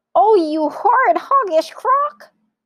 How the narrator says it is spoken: cried Mugglewump

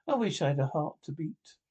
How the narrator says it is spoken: said the Tin Woodman sadly

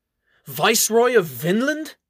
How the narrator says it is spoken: They all gasp at the notion

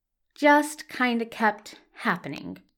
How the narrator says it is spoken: repeats Daniel slowly

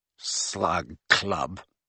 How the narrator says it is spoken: repeated Ron with a sneer worthy of Malfoy

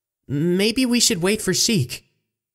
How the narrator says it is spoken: Navi suggested shakily

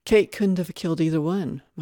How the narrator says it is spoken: Mike said

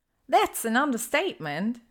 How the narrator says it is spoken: Ginny says with a light laugh

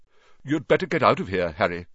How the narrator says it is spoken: said Nick quickly

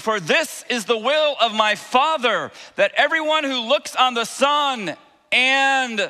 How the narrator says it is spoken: shout out

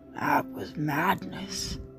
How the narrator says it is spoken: Stilgar rasped

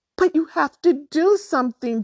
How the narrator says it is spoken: Drew shrieked

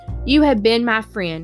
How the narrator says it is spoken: replied Charlotte

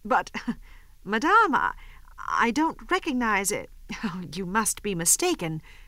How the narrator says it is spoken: She stammered

